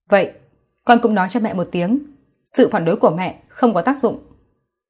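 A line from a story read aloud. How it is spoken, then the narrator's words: Cold voice. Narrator (Vietnamese): Kỷ Nhiễm giọng lạnh lùng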